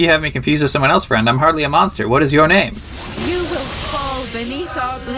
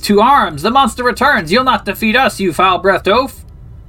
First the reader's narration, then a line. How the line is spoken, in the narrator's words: Boris shouts